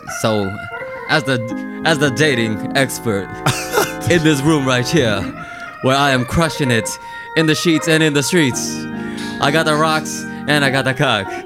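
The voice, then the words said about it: Pro wrestler promo voice. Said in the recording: “talking like a wrestler”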